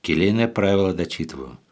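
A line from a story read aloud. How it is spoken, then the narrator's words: Calm reply from above. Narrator (Russian): спокойно отвечал сверху Феофил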